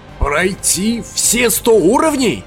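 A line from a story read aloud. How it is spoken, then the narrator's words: Sudden shout. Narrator (Russian): вдруг выкрикнул Кляйн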